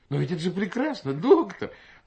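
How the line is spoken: Desperate exclamation. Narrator (Russian): Доктор Шахаб Джанабеддин с отчаянием воскликнул

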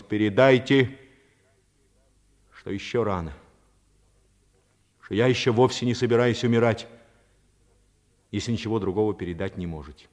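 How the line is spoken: Loud. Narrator (Russian): Паганини громко произнес

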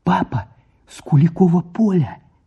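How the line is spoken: Shout out the window. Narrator (Russian): крикнула в форточку

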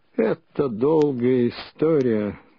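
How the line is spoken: Muffled. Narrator (Russian): глухо начал он

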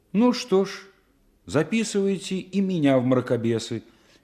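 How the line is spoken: Cheerful, defiant. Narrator (Russian): весело и вызывающе сказала Лена

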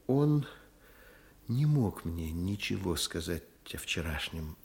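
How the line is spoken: Quiet. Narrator (Russian): проговорила тихо Вера Никандровна

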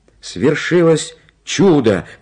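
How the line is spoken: Shouting. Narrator (Russian): крикнул

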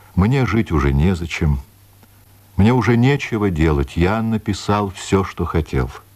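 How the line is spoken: Calm speech. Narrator (Russian): спокойно говорил

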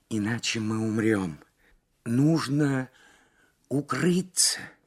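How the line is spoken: Strained whisper. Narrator (Russian): с трудом прошептала Лабискви

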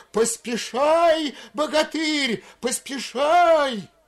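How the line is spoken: Yelling in unison. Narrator (Russian): в один голос завопили

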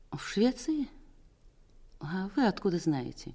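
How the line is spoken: Weak-voiced question. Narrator (Russian): спросила слабым голосом

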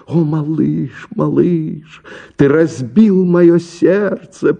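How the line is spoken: Moan. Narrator (Russian): простонала она

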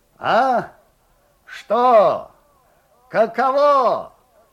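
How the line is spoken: Muffled distant shout. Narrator (Russian): глухо кричал Лукьян Степанов из темноты

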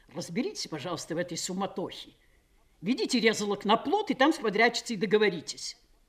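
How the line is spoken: Angry order. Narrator (Russian): приказал сердито

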